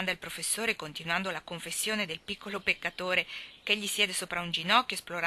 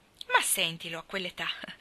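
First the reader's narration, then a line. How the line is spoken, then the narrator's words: Delighted exclamation. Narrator (Italian): esclama Joe, godendosela un mondo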